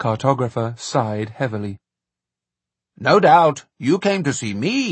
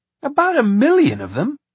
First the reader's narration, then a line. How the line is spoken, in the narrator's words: cried Jack